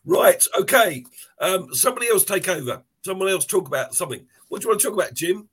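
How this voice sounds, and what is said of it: Hoarse, nearly lost voice. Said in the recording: “I've lost my voice completely.”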